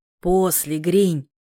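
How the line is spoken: Hoarse, nauseous croak. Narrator (Russian): Прохрипел я, борясь с тошнотой и сушняком

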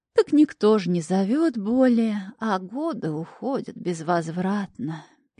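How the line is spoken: Sad sigh. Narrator (Russian): печально вздохнула миссис Випс

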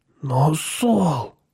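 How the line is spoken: Trembling, defensive voice. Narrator (Russian): сказал Пол дрожащим голосом, как будто оправдываясь

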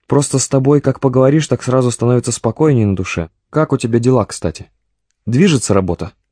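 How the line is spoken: Chuckle over the phone. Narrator (Russian): Комбат хохотнул в трубке

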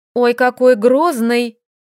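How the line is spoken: Snorted. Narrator (Russian): фыркнула Лилька

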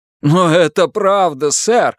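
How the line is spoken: Exclamation. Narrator (Russian): воскликнул дворецкий

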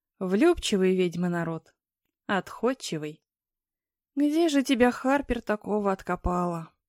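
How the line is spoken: Sad announcement. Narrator (Russian): Грустно возвестила она

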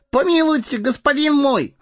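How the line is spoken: Wailing plea. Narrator (Russian): завопил Сэмми

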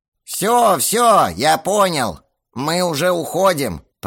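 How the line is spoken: Creaky watchman's voice. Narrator (Russian): проскрипел голос сторожа

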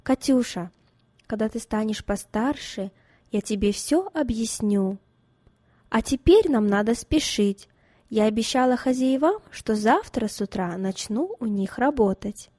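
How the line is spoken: Calm, suppressing pain. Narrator (Russian): переборов в себе душевную боль и обиду за свою невинную дочь, спокойно сказала

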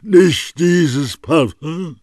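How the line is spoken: Weak, exhausted cry. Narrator (German): rief wie mit allerletzter Kraft

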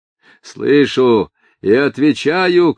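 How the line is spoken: Shouting. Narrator (Russian): кричал муха

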